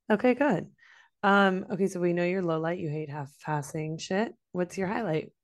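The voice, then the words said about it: Hoarse, congested voice. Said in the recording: “You can hear it from my voice. ... now I just have sort of no voice and I'm still congested and coughing”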